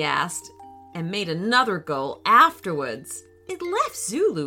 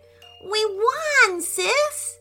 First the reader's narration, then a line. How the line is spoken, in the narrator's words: he said happily